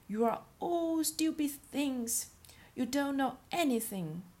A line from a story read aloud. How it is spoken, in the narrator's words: the littlest gnome stamped his feet in rage and shouted crossly